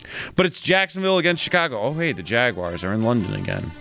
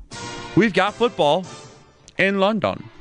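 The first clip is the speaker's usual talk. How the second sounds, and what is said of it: Bad put-on English accent. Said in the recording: “That's the worst English accent I'm ever going to give you.”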